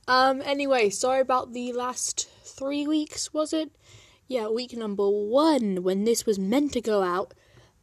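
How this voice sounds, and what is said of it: Congested, bunged-up voice with sniffling. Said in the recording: “I'm still a bit bunged up, right now ... If you, hear me sniffling and snuffling, that's why.”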